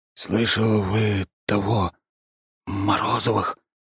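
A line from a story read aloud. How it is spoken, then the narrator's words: Whisper. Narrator (Russian): он говорит шепотом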